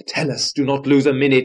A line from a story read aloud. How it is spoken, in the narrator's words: shouts Black Morgan from the skies